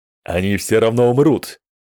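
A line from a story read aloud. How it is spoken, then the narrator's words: Shouted. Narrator (Russian): крикнул он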